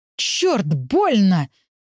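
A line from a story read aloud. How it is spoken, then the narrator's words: Pained exclamation. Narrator (Russian): воскликнул Артем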